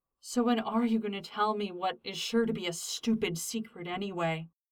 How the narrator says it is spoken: grumbled Styles over the sounds of denim sliding over skin

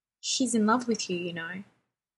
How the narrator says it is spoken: she says quickly, without the lassitude of their earlier conversation

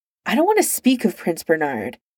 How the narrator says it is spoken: Arthur snapped

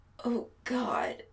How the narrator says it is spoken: Adam groans

